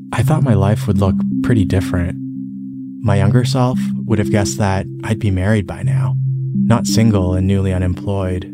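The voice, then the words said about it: Subdued, unexcited voice. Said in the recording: “you can tell from my voice that I'm not as excited to turn 38”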